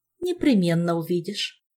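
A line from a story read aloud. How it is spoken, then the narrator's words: Calm promise. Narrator (Russian): спокойно пообещала матресса Морриган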